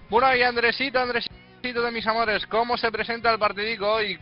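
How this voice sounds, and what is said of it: Put-on Spanish regional accent. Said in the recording (Spanish): “el acento te queda bien, ¿eh?”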